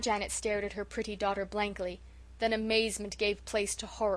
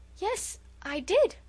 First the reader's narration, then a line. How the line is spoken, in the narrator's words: faltered Felicity, beginning to look scared